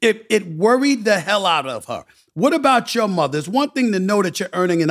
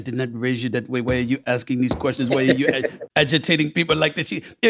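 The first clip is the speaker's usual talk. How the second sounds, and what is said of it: Put-on West Indian accent. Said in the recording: “With a West Indian accent”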